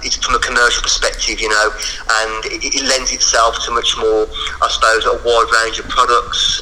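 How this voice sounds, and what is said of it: Birmingham accent. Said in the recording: “that's my bloody Birmingham accent”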